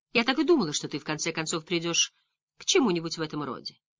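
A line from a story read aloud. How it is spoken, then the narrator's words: Calm. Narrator (Russian): спокойно произнесла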